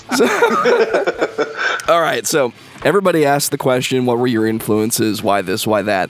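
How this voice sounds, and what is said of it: Hoarse, strained voice. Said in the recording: “I'm losing my voice, so this is going to sound amazing on the podcast recording.”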